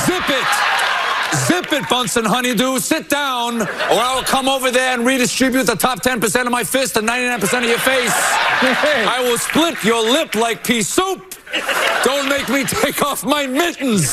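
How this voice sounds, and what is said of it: Impression of Bernie Sanders. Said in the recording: “Stephen Colbert impersonating Bernie”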